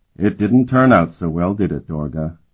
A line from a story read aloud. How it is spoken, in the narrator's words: he said in an almost friendly tone